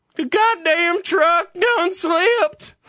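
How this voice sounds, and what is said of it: Put-on southern accent. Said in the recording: “My frustrations always end with a southern accent.”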